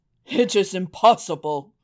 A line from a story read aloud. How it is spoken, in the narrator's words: cried the king